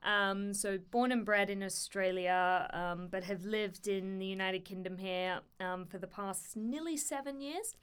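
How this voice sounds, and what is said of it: Australian accent. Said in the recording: “I'm an Australian by background, if the accent doesn't give it away.”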